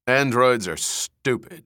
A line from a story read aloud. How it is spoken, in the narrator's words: he said savagely